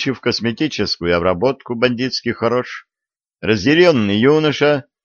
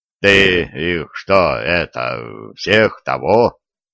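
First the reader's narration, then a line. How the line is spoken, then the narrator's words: Low booming. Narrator (Russian): прогудел Конопатый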